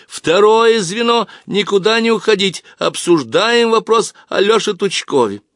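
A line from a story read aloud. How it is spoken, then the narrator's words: Shouting. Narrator (Russian): Зоя Галкина закричала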